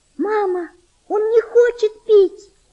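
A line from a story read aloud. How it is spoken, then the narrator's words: Girl's desperate shout. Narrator (Russian): с отчаянием закричала девочка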